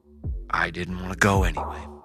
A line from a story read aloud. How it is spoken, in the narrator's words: he muttered